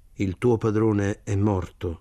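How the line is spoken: Plain. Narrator (Italian): le disse

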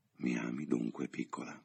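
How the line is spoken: Murmured. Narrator (Italian): mormorò

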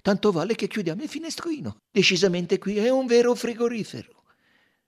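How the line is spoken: Cheerful tone. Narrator (Italian): aggiunse in tono allegro

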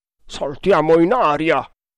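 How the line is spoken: Grumbled. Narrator (Italian): brontolò Udaipur

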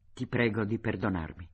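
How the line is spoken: Moved gloomy boy murmuring. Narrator (Italian): Pastor, il ragazzo cupo e sempre col viso tetro, si commosse e mormorò

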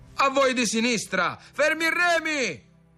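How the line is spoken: Shouted. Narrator (Italian): gridò padron Toni

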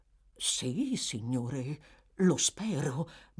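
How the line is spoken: Pale butler's frightened stammer. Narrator (Italian): balbettò il maggiordomo, che era diventato pallidissimo

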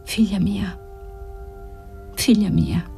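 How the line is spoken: Tender murmur. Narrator (Italian): Margherita mormorava

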